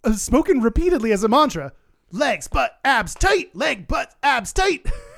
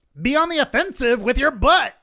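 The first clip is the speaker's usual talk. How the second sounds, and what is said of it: Imitated drill instructor voice. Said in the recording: “gonna put on your instructor voice”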